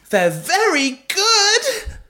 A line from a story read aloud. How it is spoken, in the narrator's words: screamed Belinda mid-bonk